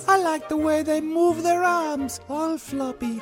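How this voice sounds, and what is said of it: Silly put-on character accent. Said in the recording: “this stupid accent that ... was doing called Jorge”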